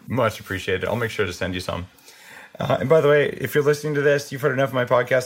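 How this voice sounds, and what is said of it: Slightly hoarse voice. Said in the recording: “my voice is a little hoarse because I've been throwing up all night”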